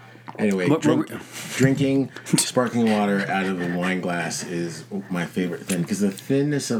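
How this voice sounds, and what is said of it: Usual voice. Nothing is said of it.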